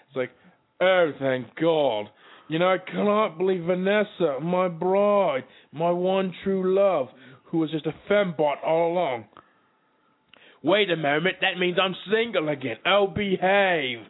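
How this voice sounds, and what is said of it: Austin Powers impression. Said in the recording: “impersonations. This one's Austin Powers.”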